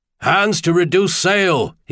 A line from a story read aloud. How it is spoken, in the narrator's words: he bellowed through it